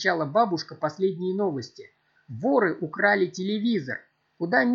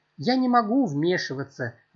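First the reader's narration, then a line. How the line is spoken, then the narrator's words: Sighing old woman. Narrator (Russian): вздохнула бабушка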